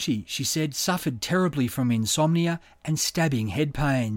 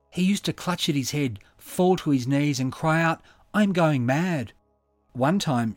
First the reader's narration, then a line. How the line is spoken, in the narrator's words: she said